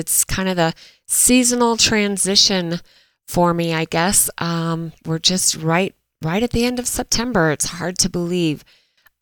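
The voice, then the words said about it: Slightly stuffy, congested voice. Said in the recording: “I'm a little bit stuffy today, so apologize if my voice isn't 100% spot on, but just battling some allergies”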